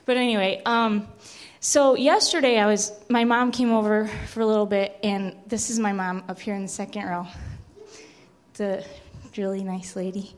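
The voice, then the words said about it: Breathless, out-of-breath speech. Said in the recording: “sorry, I can't breathe. I'm really out of breath these days”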